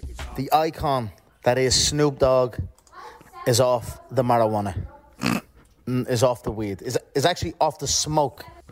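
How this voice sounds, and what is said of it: Irish accent. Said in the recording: “in the Irish accent... really sounded it out”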